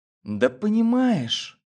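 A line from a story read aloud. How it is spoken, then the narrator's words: Mumbling. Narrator (Russian): промямлил он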